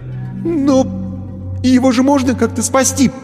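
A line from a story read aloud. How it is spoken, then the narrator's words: Babbling. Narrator (Russian): пролепетал он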